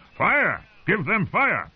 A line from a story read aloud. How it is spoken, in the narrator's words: trotted around the ring, shouting